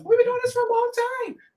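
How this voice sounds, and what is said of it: High-pitched imitation of another person's voice. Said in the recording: “in my Drake voice ... he does in a high pitched voice”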